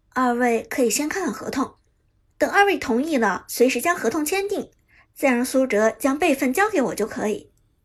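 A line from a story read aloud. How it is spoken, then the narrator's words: Smiling. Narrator (Chinese): 杜鹃笑着说道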